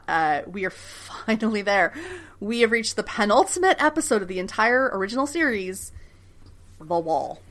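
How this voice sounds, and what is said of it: Smiling, happy voice. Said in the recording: “hear the smile in my voice”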